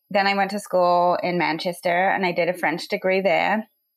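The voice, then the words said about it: English accent. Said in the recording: “my accent is a little funny. I'm from England”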